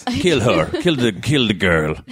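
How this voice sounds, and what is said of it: Bad put-on Russian accent. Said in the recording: “That's my Putin. ... That was terrible. I don't know what fucking accent that was. Russian at this hour, it's not good.”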